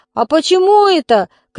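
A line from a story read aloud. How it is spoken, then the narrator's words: Distant shout. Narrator (Russian): крикнул кто-то из салона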